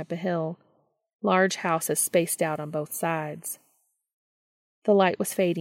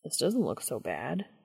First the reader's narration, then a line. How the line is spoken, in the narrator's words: he murmured to Cass once he'd regained his breath